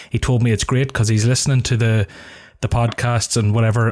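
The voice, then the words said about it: Accent from the north. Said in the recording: “people who talk like us ... who are from the north ... compliments my accent ... she loves the accent ... One of the sexiest accents in the world”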